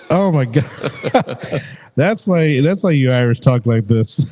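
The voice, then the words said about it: Put-on Irish accent. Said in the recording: “That's the accent coming out now.”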